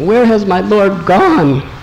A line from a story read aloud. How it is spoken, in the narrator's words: he cried for some time